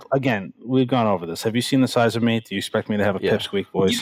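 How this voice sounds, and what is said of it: Boston accent. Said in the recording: “that sweet Boston accent”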